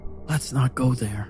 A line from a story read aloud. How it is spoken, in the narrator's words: I said quietly